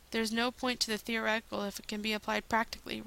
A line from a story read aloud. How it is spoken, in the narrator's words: croaked, and then coughed